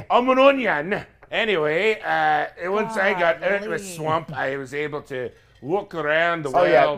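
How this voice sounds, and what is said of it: Put-on accent. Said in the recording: “keep this accent up the whole time”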